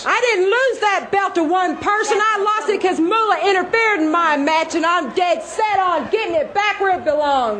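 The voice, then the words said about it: Strong Southern US accent. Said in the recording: “had a very southern accent. It was very hard to understand her at times.”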